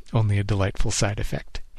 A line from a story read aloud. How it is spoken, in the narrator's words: he chuckled